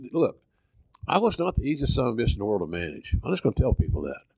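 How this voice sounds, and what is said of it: Southern Oklahoma accent. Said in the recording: “fat-ass Oklahoma boy, that southern accent, that Bell's palsy”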